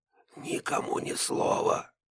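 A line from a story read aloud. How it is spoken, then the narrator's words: Whisper. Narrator (Russian): прошептал Бруно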